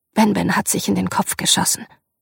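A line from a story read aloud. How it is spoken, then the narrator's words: Forced calm. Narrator (German): sagte, versuchte es ruhig zu sagen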